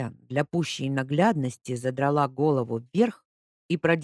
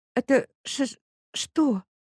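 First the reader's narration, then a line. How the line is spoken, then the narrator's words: Stammering question. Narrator (Russian): заикаясь, спросила Ника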